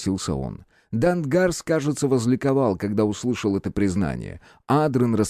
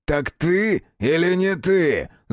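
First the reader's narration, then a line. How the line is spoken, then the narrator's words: Growling hunter. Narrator (Russian): зарычал охотник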